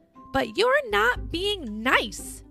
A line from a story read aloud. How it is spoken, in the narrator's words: Scribble shouted, quite mad